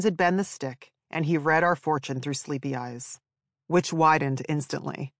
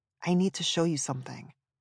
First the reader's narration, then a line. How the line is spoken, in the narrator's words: whispered